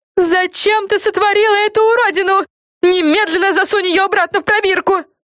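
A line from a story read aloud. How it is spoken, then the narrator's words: Shrieking. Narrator (Russian): завопила Френ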